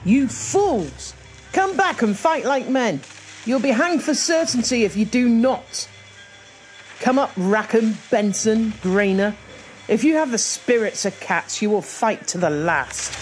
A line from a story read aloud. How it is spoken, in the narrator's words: Mary realised that the crew had fled below deck, she was absolutely livid and shouted into the hold